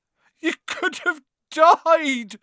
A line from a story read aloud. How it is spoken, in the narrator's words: sobbed Hagrid